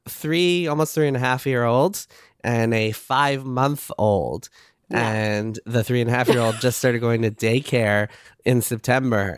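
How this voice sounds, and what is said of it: Congested voice, sounds like a cold. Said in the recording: “if I sound like I have a cold right now”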